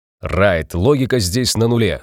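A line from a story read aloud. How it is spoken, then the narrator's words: Barking from the doorway. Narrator (Russian): с порога рявкнул детектив Хэнсон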